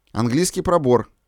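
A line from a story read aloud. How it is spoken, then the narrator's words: Plain. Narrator (Russian): сказал перебежчик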